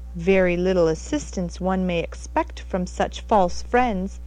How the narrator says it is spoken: exclaimed Mr

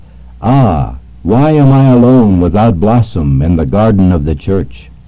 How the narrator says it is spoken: sighed and said

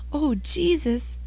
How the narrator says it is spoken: sobbed the boy, delighted that he had been heard

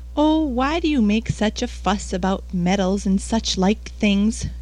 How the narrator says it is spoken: Clara exclaimed impatiently

